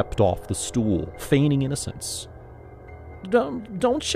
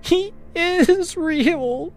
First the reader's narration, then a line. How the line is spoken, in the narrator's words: she sobbed